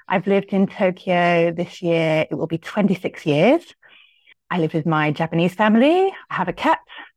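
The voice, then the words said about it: British accent. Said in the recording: “You might be able to tell from my accent, although some people can't anymore. I'm British.”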